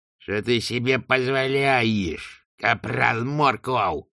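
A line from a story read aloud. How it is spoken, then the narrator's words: Growled. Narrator (Russian): прорычал Квирк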